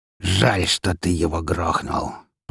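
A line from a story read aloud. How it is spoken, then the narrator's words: Through teeth, shaking with anger. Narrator (Russian): процедил он, едва ли не дрожа от злости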